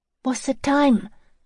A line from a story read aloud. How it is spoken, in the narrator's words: Joey gasped